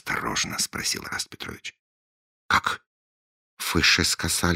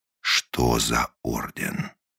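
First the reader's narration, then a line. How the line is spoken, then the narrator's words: Menacing. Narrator (Russian): грозно повторил он свой вопрос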